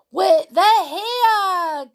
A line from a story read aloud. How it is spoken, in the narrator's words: Gabby squealed